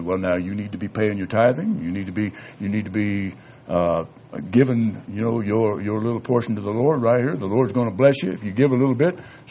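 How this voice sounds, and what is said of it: Mock preachy bishop voice. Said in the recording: “talk like a little bishop”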